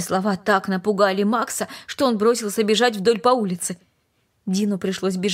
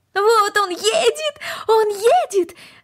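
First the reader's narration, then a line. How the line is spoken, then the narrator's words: Shouted. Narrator (Russian): закричала Корнелли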